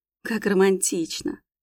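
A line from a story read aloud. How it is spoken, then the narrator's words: Confused, relieved sigh. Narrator (Russian): Окончательно запуталась домохозяйка, хотя вздохнула с облегчением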